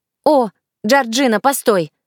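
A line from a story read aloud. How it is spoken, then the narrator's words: Sharp call. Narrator (Russian): резко окликнула меня Денис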